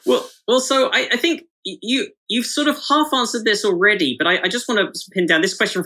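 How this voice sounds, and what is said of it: British accent with slight American twang. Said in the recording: “you also have a Brit accent here ... my accent has imperceptibly changed to American ears ... I can definitely hear a twang in there ... somewhere in the middle of the Atlantic”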